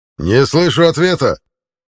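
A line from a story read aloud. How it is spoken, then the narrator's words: Barking shout. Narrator (Russian): рявкнул центурион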